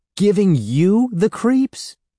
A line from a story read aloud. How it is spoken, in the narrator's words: Evan cried